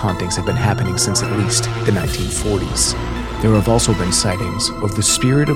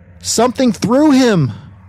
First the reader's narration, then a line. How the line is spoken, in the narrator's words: Mona screamed